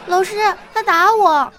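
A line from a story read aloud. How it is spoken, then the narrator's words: Shrieking in pain, shouting. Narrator (Chinese): 他嗷一声惨叫，大喊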